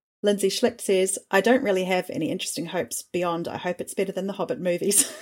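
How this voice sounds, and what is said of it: New Zealand accent. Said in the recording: “your lovely accent ... It is a lovely accent ... sounding like a Kiwi”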